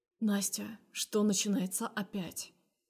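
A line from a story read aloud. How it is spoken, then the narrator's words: Quiet question. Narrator (Russian): спрашивает тихо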